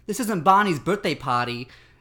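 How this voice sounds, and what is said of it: Imitated Boston accent, angry teacher. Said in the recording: “I can do an impression of a teacher that I had who did the accent ... In that accent? ... Yeah, exactly like that ... like Barney, but with a Boston accent”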